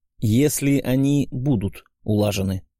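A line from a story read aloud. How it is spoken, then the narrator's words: Calm voice. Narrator (Russian): спокойным голосом добавил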